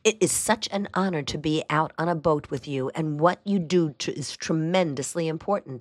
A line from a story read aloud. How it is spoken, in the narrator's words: I said